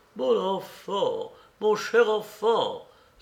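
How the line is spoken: Exclaiming. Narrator (French): s'exclama-t-il

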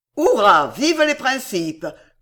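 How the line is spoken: Exclaimed. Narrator (French): s'écria Sam

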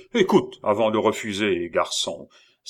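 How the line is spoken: Superior, condescending tone. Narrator (French): répliqua le commis voyageur d'un ton de supériorité

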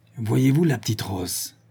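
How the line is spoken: Grumbled. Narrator (French): grommela Fauché

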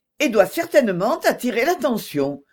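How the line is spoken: Quick, lively reply. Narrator (French): reprit vivement Mrs

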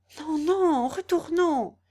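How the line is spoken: Exclaimed. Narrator (French): s'écria Clorinda

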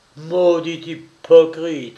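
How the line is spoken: Exclaiming. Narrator (French): s'écria Andrés

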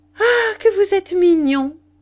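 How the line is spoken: Shout. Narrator (French): cria Rosemonde

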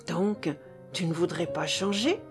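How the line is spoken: Soft question. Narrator (French): demanda-t-elle doucement

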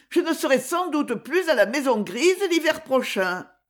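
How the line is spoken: Exclaimed. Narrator (French): s'écria Zoé

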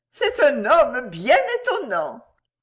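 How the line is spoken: Exclaiming. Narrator (French): s'écria Minerve

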